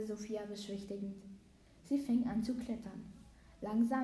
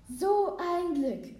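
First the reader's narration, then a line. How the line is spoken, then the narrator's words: Relieved call. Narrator (German): rief die Frau erleichtert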